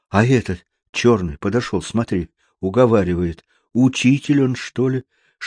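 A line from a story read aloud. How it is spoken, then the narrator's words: Whispered. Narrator (Russian): шептал Паскуале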